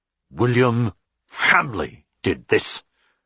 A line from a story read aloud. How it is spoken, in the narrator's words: Richard said through his teeth